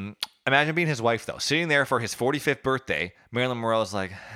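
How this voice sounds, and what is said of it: Usual voice. Nothing is said of it.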